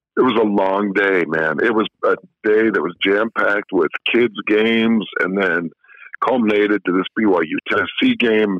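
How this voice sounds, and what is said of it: Hoarse, nearly lost voice. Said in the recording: “I know you don't have much of a voice left ... You can hear my voice is gone, mostly from my kids' games”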